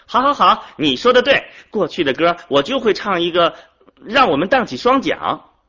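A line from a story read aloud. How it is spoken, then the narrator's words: Laughing. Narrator (Chinese): 金秀笑着说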